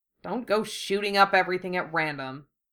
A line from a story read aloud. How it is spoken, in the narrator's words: Wufei grumbled in resignation